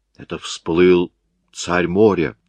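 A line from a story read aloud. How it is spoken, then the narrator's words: Plain. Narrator (Russian): сказал кто-то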